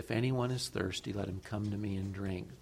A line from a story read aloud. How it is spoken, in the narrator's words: Jesus stands up and cries out with a loud voice